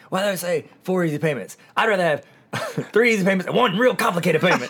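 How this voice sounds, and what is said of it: Poor imitation of another person's voice. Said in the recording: “I do a terrible Mitch Hedberg impression”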